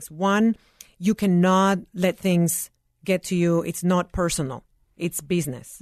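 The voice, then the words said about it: Latina-accented English. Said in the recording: “I'm a Latina woman immigrant with an accent”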